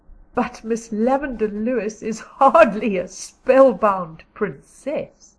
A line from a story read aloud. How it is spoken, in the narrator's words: laughed Diana